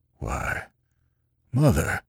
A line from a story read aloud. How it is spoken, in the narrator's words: the old man gasped